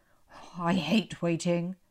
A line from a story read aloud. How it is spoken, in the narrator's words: Dad grumbled